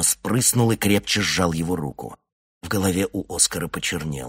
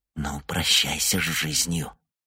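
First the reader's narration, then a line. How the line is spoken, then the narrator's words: Whisper. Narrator (Russian): Йонни прошептал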